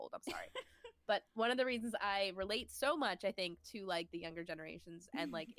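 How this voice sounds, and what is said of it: Nasal, congested voice. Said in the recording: “I sound so nasally, I'm congested, I have a cold”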